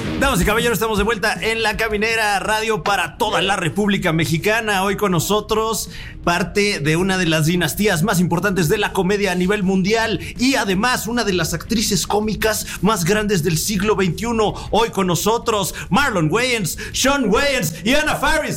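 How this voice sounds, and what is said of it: Polished radio announcer voice. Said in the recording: “You have a great radio voice. ... I felt like we was in Mexican radio. ... I felt like a morning drive.”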